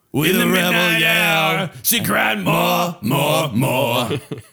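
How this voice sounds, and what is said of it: Grinding singing like a garbage disposal. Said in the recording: “That's just us doing an impression of a garbage disposal”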